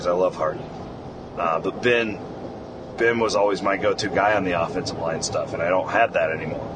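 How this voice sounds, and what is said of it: Frustrated-sounding voice. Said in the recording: “I'm, I'm frustrated. You can hear it in my voice.”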